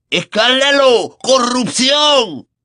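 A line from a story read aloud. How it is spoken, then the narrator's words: Bellowing portly wizard portrait. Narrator (Spanish): bramó el retrato del mago corpulento de nariz roja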